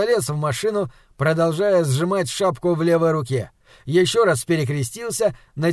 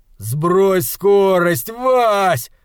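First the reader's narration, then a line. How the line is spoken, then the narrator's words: Strained shout. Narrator (Russian): кричал вдавленный в кресло Атом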